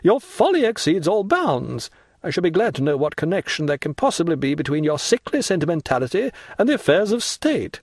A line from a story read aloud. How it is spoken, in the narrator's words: exclaimed the angry Marquise